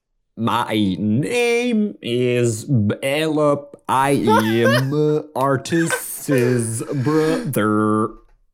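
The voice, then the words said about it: Terrible, slow put-on accent. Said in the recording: “we really need to work on your accent. It's just terrible... it's a little slow... this is painful”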